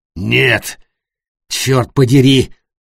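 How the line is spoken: Grumbling. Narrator (Russian): проворчал Матиас

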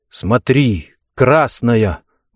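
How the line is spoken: Exclaiming. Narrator (Russian): воскликнул он

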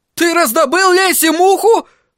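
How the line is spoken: Exclaiming. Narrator (Russian): воскликнул Лубломай

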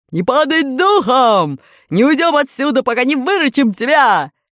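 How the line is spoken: Yelling through megaphone. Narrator (Russian): железный дровосек снова заорал в свою воронку рупор

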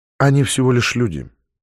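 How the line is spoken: Quiet. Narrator (Russian): негромко сказала Наталья

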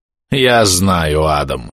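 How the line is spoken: Irritated. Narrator (Russian): говорит он не менее раздраженным тоном

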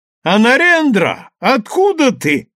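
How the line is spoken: Joyful exclamation. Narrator (Russian): радостно вскричал Дайрам, узнавая друга

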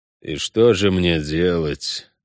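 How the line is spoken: Through gritted teeth. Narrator (Russian): сквозь зубы спросил Геральт

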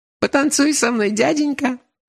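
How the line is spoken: Laughing girl. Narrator (Russian): Сквозь смех сказала эта тощая пигалица

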